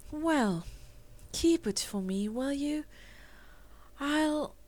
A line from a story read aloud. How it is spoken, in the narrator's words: her voice was dreamy as she answered